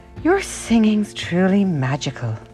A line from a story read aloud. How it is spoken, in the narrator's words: sighed